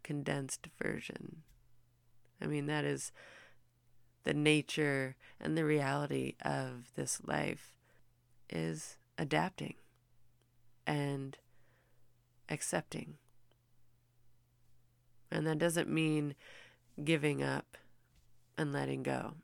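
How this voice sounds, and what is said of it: Rough, strained voice. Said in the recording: “apologize for my voice, I'm sorry. I realize it sounds rough.”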